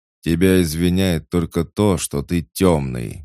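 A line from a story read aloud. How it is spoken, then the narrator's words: Growled. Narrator (Russian): рыкнул Корн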